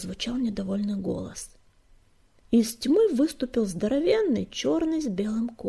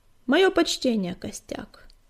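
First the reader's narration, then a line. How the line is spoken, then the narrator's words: Calm reply. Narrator (Russian): спокойно ответил серый кот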